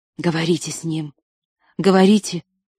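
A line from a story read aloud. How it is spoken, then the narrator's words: Whisper. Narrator (Russian): прошептал Шрей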